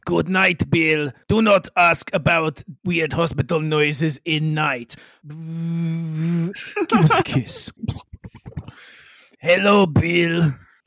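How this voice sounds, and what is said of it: Character voice with put-on accent. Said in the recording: “good night to her in an accent ... good morning to her, in an accent”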